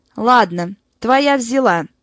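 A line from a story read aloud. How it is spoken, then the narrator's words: Dejected voice. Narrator (Russian): произнесла она упавшим голосом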